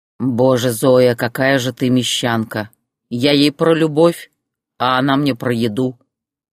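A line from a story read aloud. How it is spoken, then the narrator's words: Amused snort. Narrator (Russian): хмыкнул Борис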